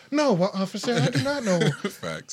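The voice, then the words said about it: Put-on white-sounding polite voice. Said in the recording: “Put on the white people voice?”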